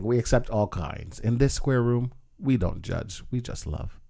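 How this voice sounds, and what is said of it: Polished radio announcer voice. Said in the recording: “You put on your radio voice too.”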